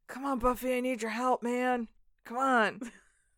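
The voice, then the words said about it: Desperate-sounding imitation of another person's voice. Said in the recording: “That's my Jack impression. ... I assume he sounds desperate.”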